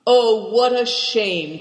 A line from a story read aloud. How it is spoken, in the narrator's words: cried Cao Chang